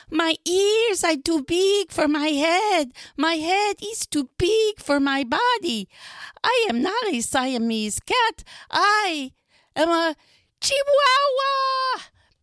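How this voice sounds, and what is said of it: Put-on Spanish accent. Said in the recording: “using his very best Spanish accent”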